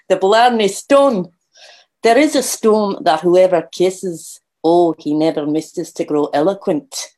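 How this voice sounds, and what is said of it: Put-on Scottish accent. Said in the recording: “his dulcet Scottish tone ... Do my best Rabia accent.”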